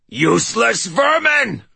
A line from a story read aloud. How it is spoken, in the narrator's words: bellowed the Grendelkin, his voice still pitched higher than before